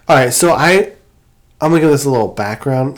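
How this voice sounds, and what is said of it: Voice with a cold. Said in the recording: “I have a cold”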